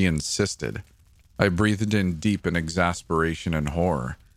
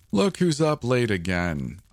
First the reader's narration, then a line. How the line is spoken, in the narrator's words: Uncle Stephen laughed